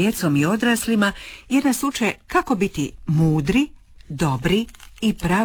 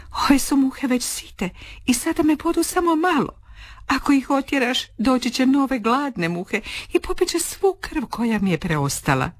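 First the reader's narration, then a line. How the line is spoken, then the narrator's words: Sighing explanation. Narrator (Croatian): Lisica uzdahne i objasni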